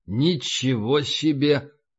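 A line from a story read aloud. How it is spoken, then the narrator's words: Muttering. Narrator (Russian): пробормотал О'Доннелл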